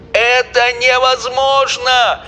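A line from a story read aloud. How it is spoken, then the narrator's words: Shouted. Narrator (Russian): закричал Шулер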